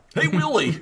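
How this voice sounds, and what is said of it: Imitates the Alf puppet character's voice. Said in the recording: “doing the Alf voice”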